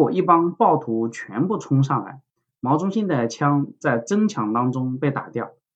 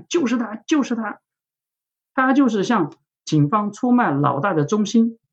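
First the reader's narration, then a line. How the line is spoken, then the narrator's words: Sudden shout from crowd. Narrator (Chinese): 人群里面突然有人喊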